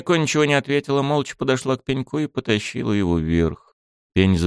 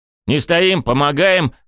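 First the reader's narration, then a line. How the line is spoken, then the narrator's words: Shout. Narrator (Russian): крикнул я Кенка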